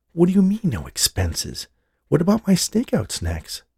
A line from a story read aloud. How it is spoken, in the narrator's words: whispered in his ear